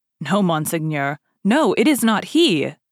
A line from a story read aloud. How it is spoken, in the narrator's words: cried Bonacieux